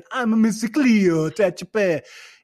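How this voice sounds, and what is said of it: Put-on reggae accent. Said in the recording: “That was my reggae accent. ... I think I nailed it. ... Bad.”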